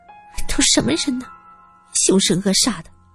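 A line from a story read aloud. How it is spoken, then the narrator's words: Quiet muttering. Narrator (Chinese): 元辰小声嘀咕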